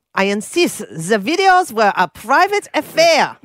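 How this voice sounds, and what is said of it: Sexy put-on German accent. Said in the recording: “the sexy German accent”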